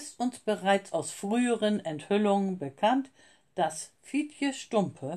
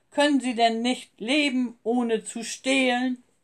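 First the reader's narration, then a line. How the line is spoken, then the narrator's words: Thundering. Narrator (German): donnerte er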